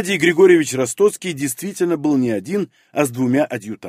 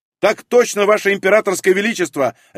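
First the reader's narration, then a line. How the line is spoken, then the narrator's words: Barked. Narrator (Russian): рявкнул я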